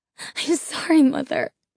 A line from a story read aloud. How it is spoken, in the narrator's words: whimpered Carlos